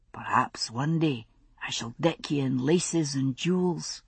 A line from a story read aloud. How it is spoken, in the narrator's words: he said softly